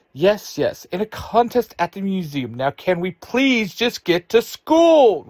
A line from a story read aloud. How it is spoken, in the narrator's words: Ruthie shouts